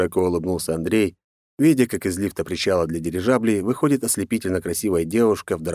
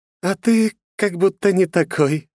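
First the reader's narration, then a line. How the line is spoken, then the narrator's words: Laughing. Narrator (Russian): рассмеялась Екатерина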